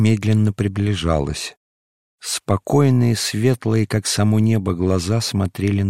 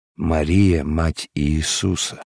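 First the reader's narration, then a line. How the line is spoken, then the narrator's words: Whisper. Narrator (Russian): прошептал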